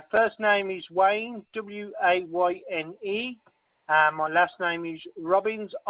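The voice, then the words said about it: Harsh Black Country English accent. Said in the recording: “My accent's a bit harsh for you, is it? ... I'm what you call a proper yam yam from the United Kingdom.”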